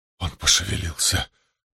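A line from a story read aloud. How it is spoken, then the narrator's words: Whisper. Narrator (Russian): прошептал Мэтью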